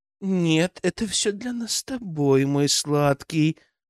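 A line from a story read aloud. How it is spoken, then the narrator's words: Purring into phone. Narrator (Russian): промурлыкала Анжела в трубку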